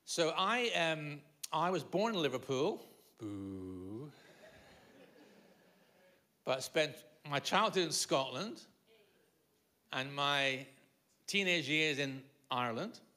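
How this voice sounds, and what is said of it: Mixed Liverpool, Scottish and Irish accent. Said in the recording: “So my accent is, is that reason. ... My mother's Liverpudlian, my dad's Irish ... when I moved to England, they couldn't understand me.”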